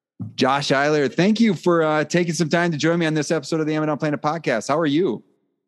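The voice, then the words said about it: Host's radio announcer voice. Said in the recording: “pop into like my radio voice”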